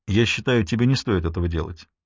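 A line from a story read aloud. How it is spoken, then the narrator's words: Calm. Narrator (Russian): сказал он спокойно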